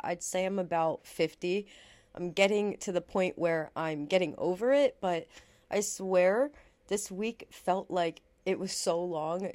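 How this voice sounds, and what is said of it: Sick, low-energy voice. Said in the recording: “I have been sick. You could probably hear it in my voice. I still am pretty sick.”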